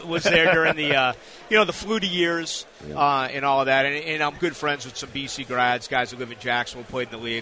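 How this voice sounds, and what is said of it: Boston accent. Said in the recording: “I grew up in Boston, suburban Boston... can't tell from the accent, can you?”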